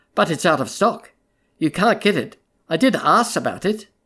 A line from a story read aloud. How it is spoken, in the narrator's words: said gravely